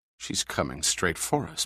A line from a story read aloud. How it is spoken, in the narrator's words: muttered Dodge uneasily